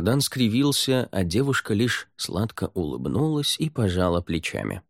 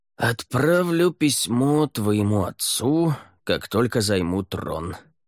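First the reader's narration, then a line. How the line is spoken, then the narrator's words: Through gritted teeth. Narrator (Russian): процедил Рай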